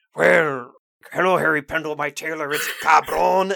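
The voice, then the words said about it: Exaggerated bad Spanish accent. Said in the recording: “doing a like an awful Spanish accent. It's terrible.”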